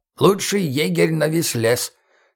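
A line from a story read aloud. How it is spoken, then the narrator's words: Creaky, instructive. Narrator (Russian): наставительно проскрипел Гоша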